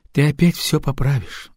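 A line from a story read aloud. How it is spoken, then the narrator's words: Sigh. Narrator (Russian): вздохнула Лилиан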